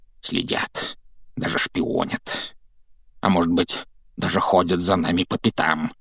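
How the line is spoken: Frantic mutter. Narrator (Russian): пробормотал дядя Вернон, который, кажется, был на грани помешательства

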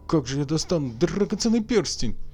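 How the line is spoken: Exclaiming. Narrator (Russian): воскликнул Хосе

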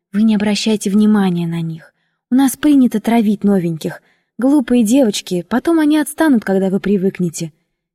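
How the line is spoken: Rapid speech. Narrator (Russian): Она робко оглянулась кругом и, увидя, что мы одни, быстро заговорила

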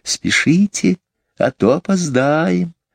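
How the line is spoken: Whisper. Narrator (Russian): Опять прошептал голос

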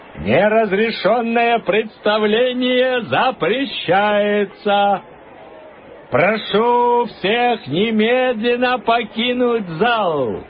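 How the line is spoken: Loud announcement. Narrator (Russian): громко объявил он

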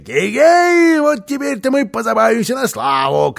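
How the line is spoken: Shouting. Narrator (Russian): кричал он

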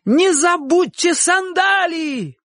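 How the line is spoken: Shout. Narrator (Russian): крикнул Чик

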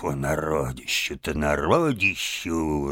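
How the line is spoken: Muttered. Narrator (Russian): Барсук пробормотав

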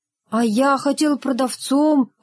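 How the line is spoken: Timid. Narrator (Russian): робко сказал Рогов

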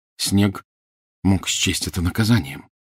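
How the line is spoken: Quiet speech. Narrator (Russian): негромко сказал Гарри

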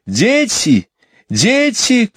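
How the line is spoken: Shouting. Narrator (Russian): кричала миссис Банкс

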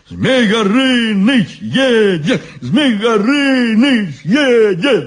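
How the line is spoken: Group shouting. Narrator (Russian): закричали они

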